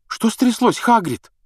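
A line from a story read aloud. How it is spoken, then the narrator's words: Frightened question. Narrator (Russian): спросила испуганно Гермиона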